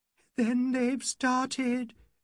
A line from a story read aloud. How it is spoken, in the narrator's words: she moaned